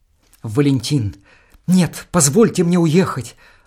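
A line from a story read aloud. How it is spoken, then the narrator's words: Frightened. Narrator (Russian): Анна испуганно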